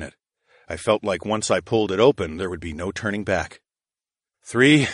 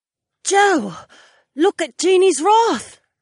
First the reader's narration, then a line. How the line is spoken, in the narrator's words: Sienna gasped